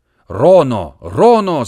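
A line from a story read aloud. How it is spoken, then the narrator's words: Crowd shouting. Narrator (Russian): закричали гавайцы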